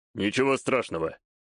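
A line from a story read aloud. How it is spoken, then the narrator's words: Calm reply. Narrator (Russian): спокойно ответил ей Такаги-старший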